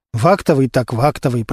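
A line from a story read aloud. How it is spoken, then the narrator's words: Muttered under breath. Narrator (Russian): пробормотал себе под нос Костя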